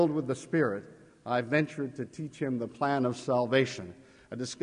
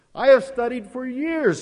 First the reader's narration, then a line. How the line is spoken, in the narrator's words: he cried